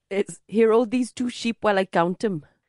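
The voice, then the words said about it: Imitated Welsh accent, not very good. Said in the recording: “I'm garbage at accents, but I can do one sentence in Welsh ... it just needs a little bit of work”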